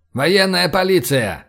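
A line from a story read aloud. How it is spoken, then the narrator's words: Menacing shout. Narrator (Russian): крикнул я грозно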